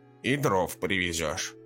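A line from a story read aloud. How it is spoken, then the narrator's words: Menacing. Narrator (Russian): грозно добавила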